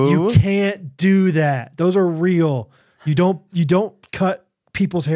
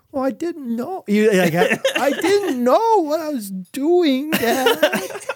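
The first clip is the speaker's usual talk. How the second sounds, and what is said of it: Imitates another person's voice. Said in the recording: “That's a great impersonation... When he's like slightly in trouble.”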